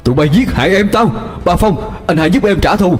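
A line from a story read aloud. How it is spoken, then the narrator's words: Near-screaming. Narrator (Vietnamese): Hai Thuận nói như thét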